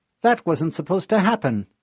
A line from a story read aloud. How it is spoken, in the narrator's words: Spark chirped